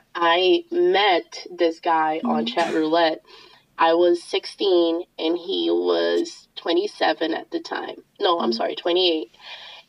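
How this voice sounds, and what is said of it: Voice sounds sick with a cold. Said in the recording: “I'm fucking dying. That's fine. I have a cold.”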